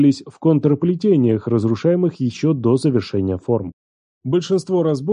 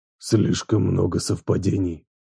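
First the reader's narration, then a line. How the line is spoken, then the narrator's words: Hoarse rasp. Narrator (Russian): прохрипел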